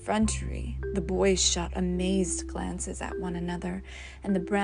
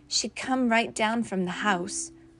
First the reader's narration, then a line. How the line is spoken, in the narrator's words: cried George Elliott